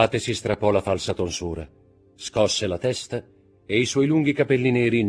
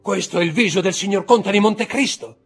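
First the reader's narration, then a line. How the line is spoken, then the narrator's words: Frantic, distraught shout. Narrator (Italian): gridò Villefort con gli occhi stravolti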